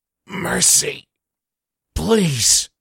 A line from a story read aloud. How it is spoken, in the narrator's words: Connor's gasping says